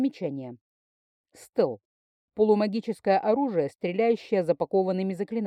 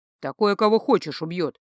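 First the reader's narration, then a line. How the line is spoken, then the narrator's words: Grumbling. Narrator (Russian): проворчал Агн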